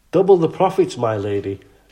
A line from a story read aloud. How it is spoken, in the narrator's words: Maisara exclaimed